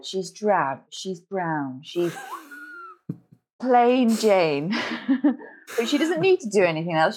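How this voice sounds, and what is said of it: Posh upper-class English voice. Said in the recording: “Why am I talking posh?”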